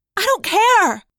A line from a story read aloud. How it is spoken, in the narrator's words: I yelled, surprised at my own passion